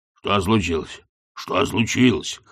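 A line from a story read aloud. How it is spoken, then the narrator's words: Hoarse repetition. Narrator (Russian): хрипло повторял он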